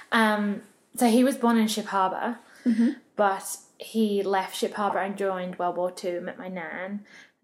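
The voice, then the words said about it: English accent. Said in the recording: “I have a totally different accent to you ... I'm from England.”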